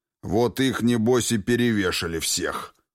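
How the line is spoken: Gloomy, curt. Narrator (Russian): мрачно бросил Михаил

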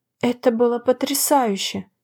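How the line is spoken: Whisper. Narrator (Russian): прошептала я

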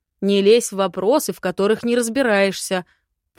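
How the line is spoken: Growled. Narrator (Russian): прорычал лорд

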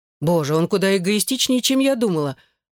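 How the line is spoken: Exclaiming. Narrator (Russian): воскликнула Эшлинг

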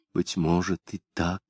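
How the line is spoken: Whispered. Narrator (Russian): прошептали ее губы

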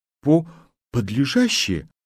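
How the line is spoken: Uncertain speech. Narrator (Russian): неуверенно сказал

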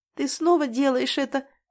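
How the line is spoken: Sobbing. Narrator (Russian): всхлипывает она

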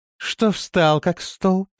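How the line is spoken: Cooing. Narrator (Russian): проворковала она

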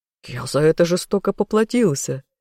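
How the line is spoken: Ringing laughter. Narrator (Russian): заливисто рассмеялся любимый

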